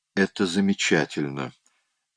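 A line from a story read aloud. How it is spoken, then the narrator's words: Calm. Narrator (Russian): спокойно сказала она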